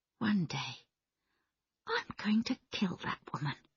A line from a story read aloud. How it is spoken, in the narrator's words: Diane said quietly